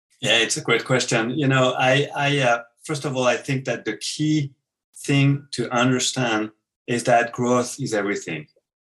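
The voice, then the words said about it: French accent. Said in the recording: “the great accent of a beautiful French accent”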